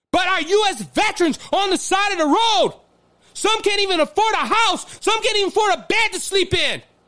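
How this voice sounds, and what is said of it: Yelling, emotional delivery. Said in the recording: “I'm sorry I'm yelling ... I'm very emotional right now”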